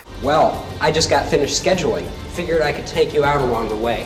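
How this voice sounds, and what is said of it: Strong nasal Midwestern accent. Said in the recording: “a strong Midwestern accent ... that man was basically talking entirely through his nostrils back then”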